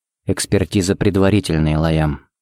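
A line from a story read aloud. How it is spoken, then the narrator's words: Quiet. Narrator (Russian): сказал он тихо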